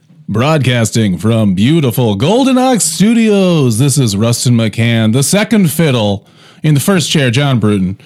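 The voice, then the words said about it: Announcer-style radio voice. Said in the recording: “you know how I have a radio voice.”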